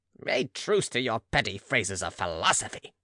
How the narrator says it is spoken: cried the old man, irritated into trying to be majesty

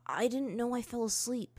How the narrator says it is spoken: he answered quietly, his voice somewhat hoarse

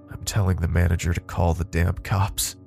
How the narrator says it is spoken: George mumbled

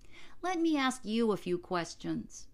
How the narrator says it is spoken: cried

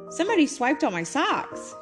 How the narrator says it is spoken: she exclaimed

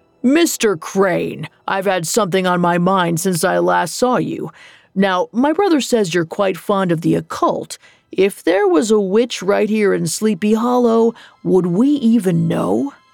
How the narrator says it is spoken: Brom demurred

